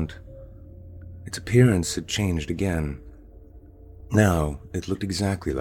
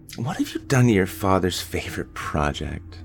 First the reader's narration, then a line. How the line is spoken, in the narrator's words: She sighed